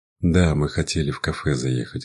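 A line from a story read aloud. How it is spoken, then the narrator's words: Sighing. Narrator (Russian): вздохнул я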